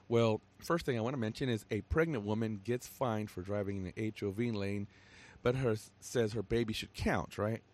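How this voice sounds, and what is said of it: Pretty hoarse voice. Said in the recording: “You can hear my voice is pretty hoarse right now. Kind of hard for me to talk.”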